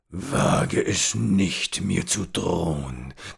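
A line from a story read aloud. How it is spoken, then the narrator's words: Old man growling. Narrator (German): knurrte der alte Mann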